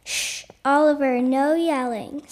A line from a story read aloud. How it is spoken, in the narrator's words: said his teacher